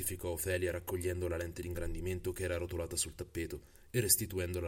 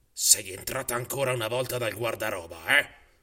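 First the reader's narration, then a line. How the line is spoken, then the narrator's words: Archivist muttering. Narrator (Italian): borbottò l'archivista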